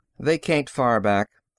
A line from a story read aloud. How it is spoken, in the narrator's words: Franks said calmly